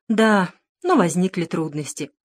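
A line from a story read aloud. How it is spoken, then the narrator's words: Old man's sigh. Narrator (Russian): вздохнул старичок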